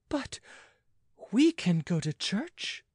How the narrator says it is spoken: ventured the maid timidly

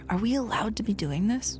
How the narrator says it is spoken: would get nervous and whisper

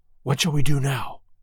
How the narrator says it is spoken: whispered Sir Henry

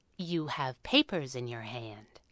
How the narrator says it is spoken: Abigail said, calmly and professionally

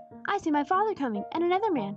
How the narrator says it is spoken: cried the boy

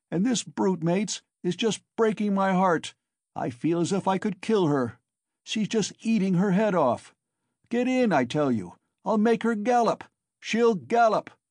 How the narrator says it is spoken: he shouted

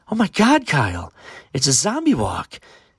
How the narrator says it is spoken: excitedly said his girlfriend

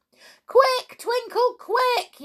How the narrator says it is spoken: yelled Sandy and the pixies

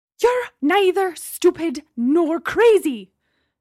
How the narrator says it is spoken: Gemma shouted, returning to her previous rage

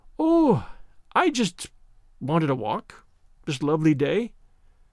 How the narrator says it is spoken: said Janet, miserably

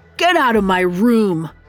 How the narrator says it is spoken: he snapped

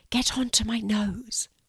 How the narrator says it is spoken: whispered Blue

